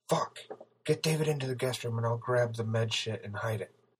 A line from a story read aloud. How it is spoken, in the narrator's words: whispered as he scrambled into action